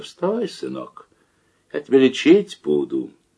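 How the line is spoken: Gentle, affectionate. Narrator (Russian): ласково так говорит мне

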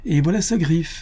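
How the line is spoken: Exclaiming. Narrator (French): s'écria le domino

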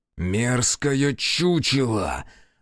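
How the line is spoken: Growling under breath. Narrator (Russian): рычал Аяшики себе под нос

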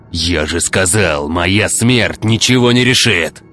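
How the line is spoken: Rough reply. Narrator (Russian): грубо ответил ученый

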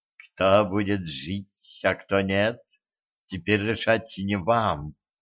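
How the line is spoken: Calm. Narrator (Russian): спокойно ответила Зейнаб

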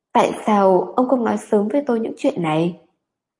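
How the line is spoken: Muttered. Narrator (Vietnamese): lẩm bẩm

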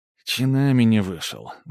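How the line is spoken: Sigh. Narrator (Russian): вздохнул дядя Сережа

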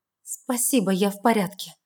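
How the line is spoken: Mumbling. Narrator (Russian): бормочу

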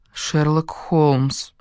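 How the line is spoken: Gloomy. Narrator (Russian): мрачно произнесла я

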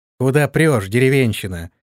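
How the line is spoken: Rude, vindictive. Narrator (Russian): грубо и мстительно произнесла она

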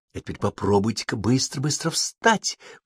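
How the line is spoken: Sudden whisper. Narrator (Russian): вдруг шепнула Мирра

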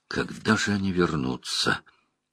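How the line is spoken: Quiet but insistent. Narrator (Russian): тихо, но настойчиво заговорил Уно

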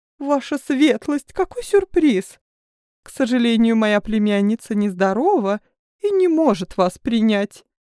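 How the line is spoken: Flustered babbling. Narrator (Russian): Залепетала Оливия, желая отделаться от незваного гостя

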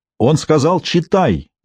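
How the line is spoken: Sudden shrill cry. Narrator (Russian): вдруг выкрикнул Мансур пронзительным голосом

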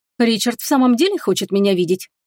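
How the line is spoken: Abrupt, suppressed irritation. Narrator (Russian): Резко сменила тему Агата, воюя с возраставшим раздражением

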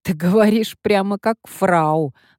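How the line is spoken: Laughing. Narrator (Russian): рассмеялась Эмилия

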